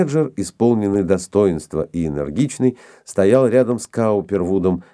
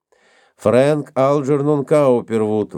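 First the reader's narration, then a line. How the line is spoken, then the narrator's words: Nasal, court clerk. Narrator (Russian): прогнусавил секретарь суда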